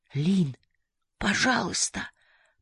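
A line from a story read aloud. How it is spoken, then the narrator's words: Whisper. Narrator (Russian): прошептал Махеш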